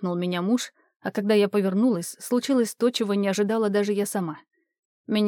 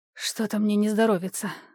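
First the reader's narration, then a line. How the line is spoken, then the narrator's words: Breathy exhale. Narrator (Russian): выдохнула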